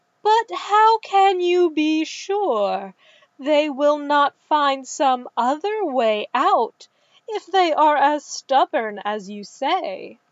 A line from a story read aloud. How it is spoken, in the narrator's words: The overseer laughed